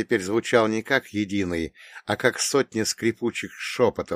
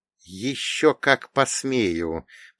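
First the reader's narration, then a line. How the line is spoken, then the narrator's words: Strained, through clenched teeth. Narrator (Russian): процедил я сквозь сжатые зубы, стараясь не потерять концентрацию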